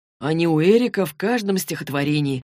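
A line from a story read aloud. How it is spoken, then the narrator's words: Gloomy reply. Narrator (Russian): мрачно ответил Саймон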